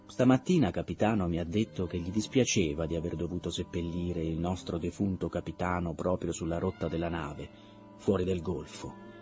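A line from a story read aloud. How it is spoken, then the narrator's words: Even voice, shaken. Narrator (Italian): Ransom era scosso da quella domanda diretta, ma dopo un breve silenzio aggiunse con voce uguale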